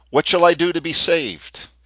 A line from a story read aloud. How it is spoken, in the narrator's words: One cried